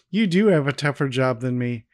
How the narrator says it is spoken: Cindy laughs and tells her

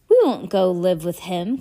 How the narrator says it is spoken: Klaus said fiercely

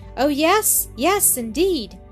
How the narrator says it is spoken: cried Annis, with delight

